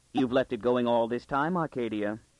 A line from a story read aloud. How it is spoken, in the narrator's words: He said sweetly